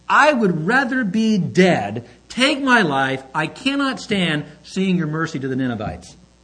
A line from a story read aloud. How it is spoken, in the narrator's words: he pleads with God